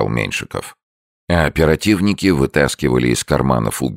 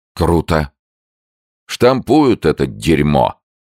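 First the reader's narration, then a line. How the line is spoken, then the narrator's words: Angry. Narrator (Russian): зло сказал Меньшиков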